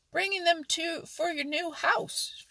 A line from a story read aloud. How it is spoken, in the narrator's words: shouted Billy Mink